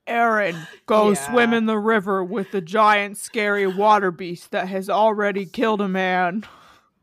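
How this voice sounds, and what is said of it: Imitates another person's voice. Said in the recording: “That's my Zach Bagans impression. ... That was very good. ... if I wanted to do it really, really right, I would have slowed it down really slow.”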